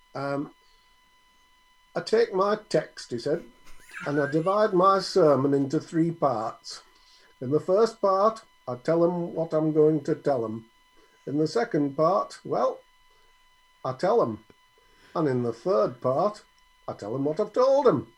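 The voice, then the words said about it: Puts on an accent. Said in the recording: “Which is a brilliant accent”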